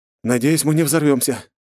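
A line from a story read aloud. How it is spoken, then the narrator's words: Snorting. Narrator (Russian): хмыкнул я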